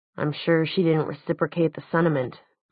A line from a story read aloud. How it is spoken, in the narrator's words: muttered Luke